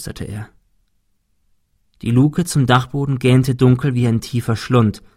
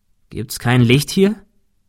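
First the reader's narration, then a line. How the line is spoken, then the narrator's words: Plain question. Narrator (German): fragte Thomas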